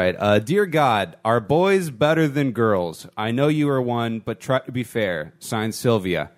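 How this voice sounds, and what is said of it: Usual voice. Nothing is said of it.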